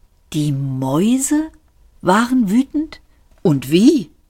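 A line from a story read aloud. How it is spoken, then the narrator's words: Old man, gentle. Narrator (German): sagte der alte Mann sanft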